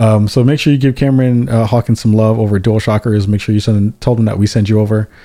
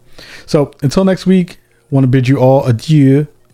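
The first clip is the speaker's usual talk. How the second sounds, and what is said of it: Exaggerated French accent. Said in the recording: “I said that joint with a mad French accent”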